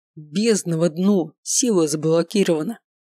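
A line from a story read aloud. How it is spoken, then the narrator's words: Growl. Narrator (Russian): рыкнул Маркус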